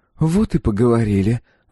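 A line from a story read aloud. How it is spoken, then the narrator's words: Sighing. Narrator (Russian): вздохнула та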